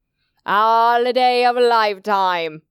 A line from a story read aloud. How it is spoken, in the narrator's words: slurred